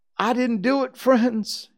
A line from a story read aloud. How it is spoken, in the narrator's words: he sobbed